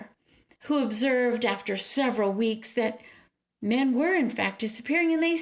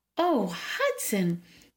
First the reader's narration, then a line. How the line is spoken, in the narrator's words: the woman exclaimed